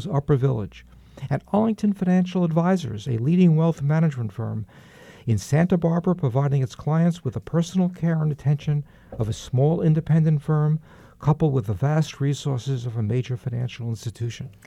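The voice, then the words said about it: New York accent. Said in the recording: “speak without a New York accent during this intro ... not much progress has been made”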